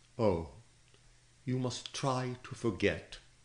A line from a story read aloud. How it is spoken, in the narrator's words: she said in a low monotone